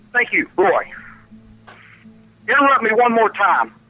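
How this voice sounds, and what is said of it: Angry yelling. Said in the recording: “You're the only one yelling. ... That's why I'm yelling!”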